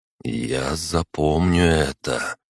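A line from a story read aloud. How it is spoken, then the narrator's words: Slow, quiet, solemn. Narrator (Russian): проговорил я медленно и тихо, но как-то торжественно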